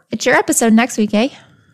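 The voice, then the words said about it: Put-on Canadian accent. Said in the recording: “That's Canadian.”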